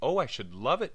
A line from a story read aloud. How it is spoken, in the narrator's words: cried Agatha